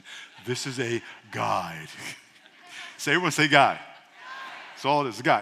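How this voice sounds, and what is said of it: Late-night radio host voice. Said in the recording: “I'm getting my late night radio voice”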